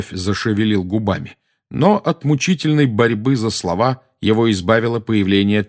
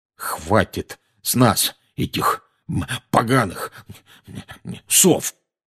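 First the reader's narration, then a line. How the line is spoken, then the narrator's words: Confused muttering. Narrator (Russian): бестолково бормотал дядя Вернон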